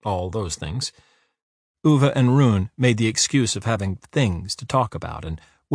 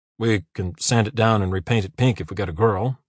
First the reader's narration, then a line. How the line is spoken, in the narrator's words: mumbled Uwe